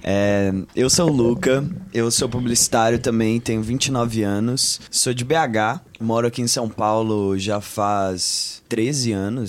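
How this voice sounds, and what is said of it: Mixed Minas Gerais and São Paulo accent. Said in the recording (Portuguese): “Não tem nem sotaque mais... Eu tenho meio sotaque mineiro, meio sotaque ah, paulista”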